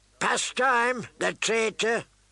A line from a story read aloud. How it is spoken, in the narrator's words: the man spat